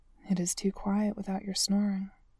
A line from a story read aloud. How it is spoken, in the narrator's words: Marcus says softly